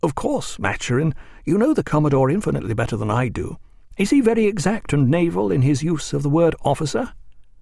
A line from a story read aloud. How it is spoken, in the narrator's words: Stephen's friend Howard came and, standing by him, said discreetly